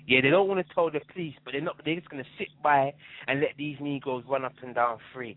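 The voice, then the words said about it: Non-American accent. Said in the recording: “I hear you have a non-American accent.”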